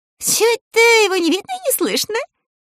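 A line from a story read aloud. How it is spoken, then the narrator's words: Giggling. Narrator (Russian): хихикнула она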